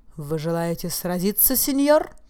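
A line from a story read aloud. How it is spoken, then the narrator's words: Exclamation. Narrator (Russian): воскликнул сэр Осбет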